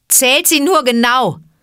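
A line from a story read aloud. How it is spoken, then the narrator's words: Mocking shout. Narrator (German): rief Mowgli höhnisch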